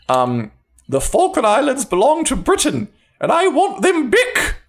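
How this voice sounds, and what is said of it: Margaret Thatcher impression. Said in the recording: “my Margaret Thatcher impression. ... That's Margaret Thatcher impression.”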